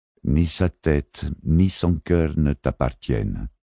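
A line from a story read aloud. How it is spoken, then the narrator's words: Plain. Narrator (French): dit le Gersalémine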